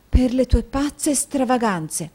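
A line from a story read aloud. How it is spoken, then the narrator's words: Firm low voice. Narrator (Italian): affermò la moglie sottovoce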